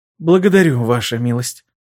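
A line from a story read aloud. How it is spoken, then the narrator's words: Hoarse voice. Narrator (Russian): хрипло произнесла она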